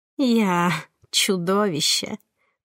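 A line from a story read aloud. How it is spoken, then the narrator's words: Moaning. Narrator (Russian): простонала она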